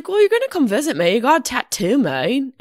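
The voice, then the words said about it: Imitated New Zealand accent. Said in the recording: “she's from you know New Zealand ... Her voice is so fucking adorable. Her accent is amazing.”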